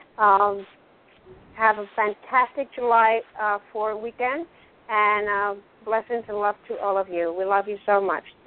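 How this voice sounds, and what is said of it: Hoarse, partly lost voice. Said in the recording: “I lose my voice a little bit.”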